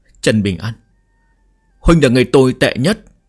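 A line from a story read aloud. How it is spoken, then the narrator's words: Choked, tearful. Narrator (Vietnamese): Cố Sán nghẹn ngào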